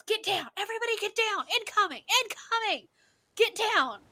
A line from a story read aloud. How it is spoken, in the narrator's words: All of a sudden he just yells